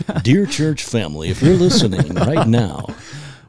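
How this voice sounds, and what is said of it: Announcer-style radio voice. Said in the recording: “Radio voice.”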